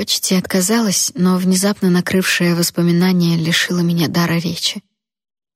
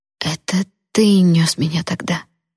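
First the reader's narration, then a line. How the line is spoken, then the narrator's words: Barely audible mumble. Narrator (Russian): едва слышно пробормотала я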